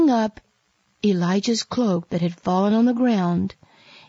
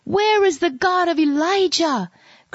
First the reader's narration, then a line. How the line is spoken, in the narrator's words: cried Elisha